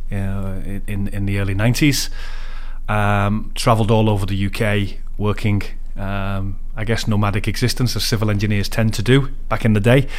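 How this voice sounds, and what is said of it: Liverpool English accent. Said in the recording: “You can probably tell from my accent, I'm from Liverpool. My kids say I've lost the accent. I have a very strong work voice, but no, the accent is still there.”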